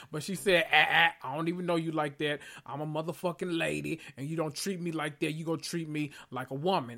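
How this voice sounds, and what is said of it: Sassy put-on character voice. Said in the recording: “in my Shanae voice”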